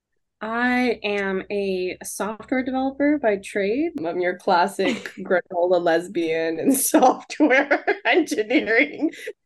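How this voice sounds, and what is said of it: Texas accent. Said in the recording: “sexy ... Accent ... I'm originally from Texas, born and raised. Houston, Texas. That's where that accent is from.”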